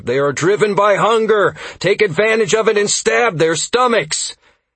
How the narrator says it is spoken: shouting as I arrived

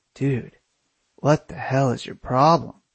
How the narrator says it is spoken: I grumbled

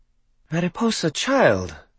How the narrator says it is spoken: Sarai exclaimed

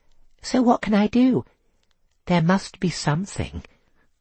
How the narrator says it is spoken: said sweetly

